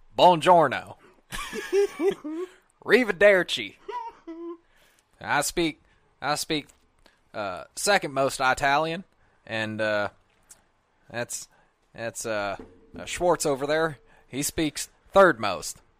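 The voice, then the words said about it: Impression of Brad Pitt's Aldo Raine. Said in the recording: “Brad Pitt's depiction of Aldo the Apache in Inglourious Basterds ... do an impression”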